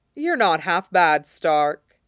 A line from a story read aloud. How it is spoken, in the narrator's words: the Oathbreaker said